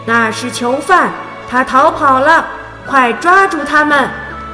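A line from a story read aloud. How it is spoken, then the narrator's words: Loud shout. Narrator (Chinese): 一个士兵大声喊道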